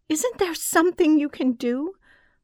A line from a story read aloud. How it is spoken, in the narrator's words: my mother pleaded